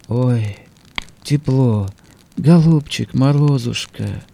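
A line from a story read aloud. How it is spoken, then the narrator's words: Barely audible, freezing girl. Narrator (Russian): Девица окостеневала и чуть слышно сказала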